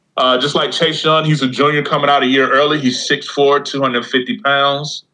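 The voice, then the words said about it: Country accent. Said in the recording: “I got this country accent, so I can mess up.”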